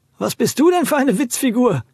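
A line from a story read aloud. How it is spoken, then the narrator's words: Dirt devil calling. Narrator (German): rief der Schmutzteufel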